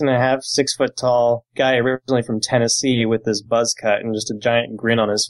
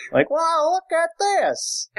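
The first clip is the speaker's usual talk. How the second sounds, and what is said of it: Excited Southern US accent impression. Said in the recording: “That's a good impression... That was a good impression... his Tennessee or Georgia accent”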